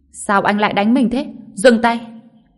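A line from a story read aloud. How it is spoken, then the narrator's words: Young woman screaming. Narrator (Vietnamese): Cô gái hét lên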